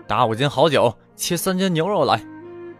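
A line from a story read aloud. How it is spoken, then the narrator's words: Hero calling out. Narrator (Chinese): 大侠南霁云也是一进酒店就喊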